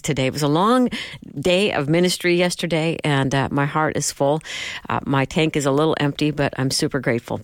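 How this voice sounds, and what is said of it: Tired, fatigued voice. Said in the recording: “hear the fatigue in my voice... I'm so tired”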